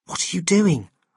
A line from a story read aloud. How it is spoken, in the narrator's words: I whispered, as I suddenly realized that people were looking at us